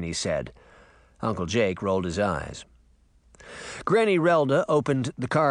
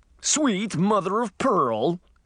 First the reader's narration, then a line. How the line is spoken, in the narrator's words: shouted